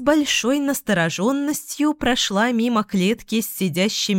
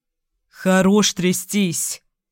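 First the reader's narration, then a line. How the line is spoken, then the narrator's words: Irritated growl. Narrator (Russian): рыкнул недовольно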